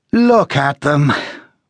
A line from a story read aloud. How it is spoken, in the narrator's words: Boyce said wearily